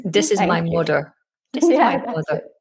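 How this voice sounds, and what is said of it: Good imitation of Irish accent. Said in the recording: “another interesting feature of the Irish accent, and that's that it's rhotic ... You did a good imitation, mother. Yeah, there's definitely an or at the end.”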